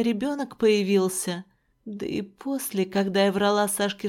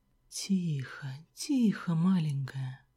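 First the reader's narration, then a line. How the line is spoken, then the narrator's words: Whisper. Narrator (Russian): Шептал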